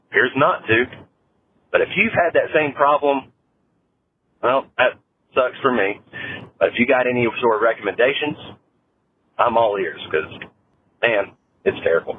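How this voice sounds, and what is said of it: Southern US Carolina drawl. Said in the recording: “He's got that accent. ... he's got a beautiful Southern draw. Carolina Southern draw.”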